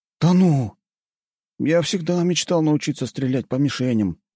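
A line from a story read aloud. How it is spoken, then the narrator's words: Sighing young man. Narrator (Russian): вздохнул паренек в очках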